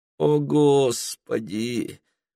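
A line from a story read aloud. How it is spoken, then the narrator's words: Groaning. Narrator (Russian): простонал Питер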